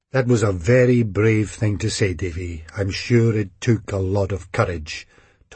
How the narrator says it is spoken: Tom said solemnly

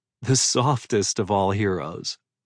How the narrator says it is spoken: she said around a laugh

